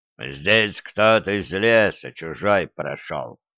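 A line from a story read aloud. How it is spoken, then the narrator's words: Muffled grumble. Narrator (Russian): проворчал жучок, уткнувшись носом в землю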